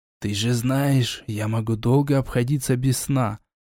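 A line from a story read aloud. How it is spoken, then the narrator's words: Whispered reply. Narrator (Russian): также шепотом ответил ушастик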